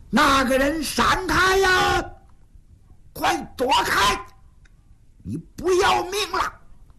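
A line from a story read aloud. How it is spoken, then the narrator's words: Sudden shout. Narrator (Chinese): 有人喊了一嗓子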